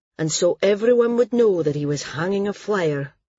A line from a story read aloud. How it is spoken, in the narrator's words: Cole said wearily